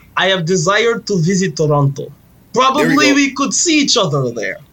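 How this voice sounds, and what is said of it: Put-on Russian accent. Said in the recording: “sound Russian? ... Do it with a Russian accent”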